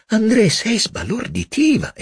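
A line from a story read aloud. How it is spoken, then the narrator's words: Exclamation. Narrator (Italian): esclamò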